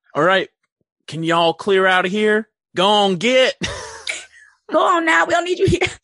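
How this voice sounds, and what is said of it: Put-on West Virginia accent. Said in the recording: “Her accent... She's from West Virginia, right?... That accent is so like, it's very like Annie Oakley.”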